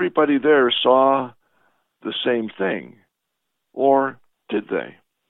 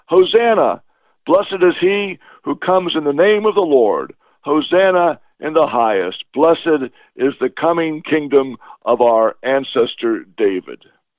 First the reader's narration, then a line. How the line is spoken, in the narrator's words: the people shouted